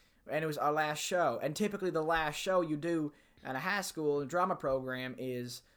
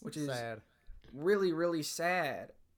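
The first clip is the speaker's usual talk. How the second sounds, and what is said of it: Put-on cowboy accent. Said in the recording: “in a cowboy accent”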